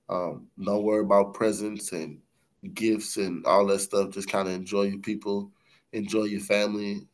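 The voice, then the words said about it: Sounds sick, under the weather. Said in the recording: “I don't know if you can hear it in my voice, but you know I'm uh, a little bit under the weather”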